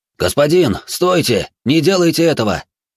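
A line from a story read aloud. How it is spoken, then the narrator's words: Shout. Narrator (Russian): крикнул один из соратников Пингфу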